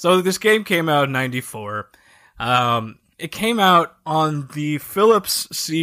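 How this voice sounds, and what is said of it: Usual voice. Nothing is said of it.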